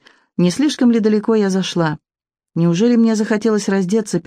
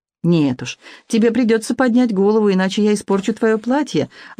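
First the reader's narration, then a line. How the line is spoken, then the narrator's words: Laughing. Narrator (Russian): Алан рассмеялся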